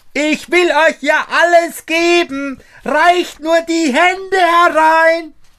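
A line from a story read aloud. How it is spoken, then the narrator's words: Shouting as loud as possible. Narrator (German): schrie Daumestick noch einmal, so laut er konnte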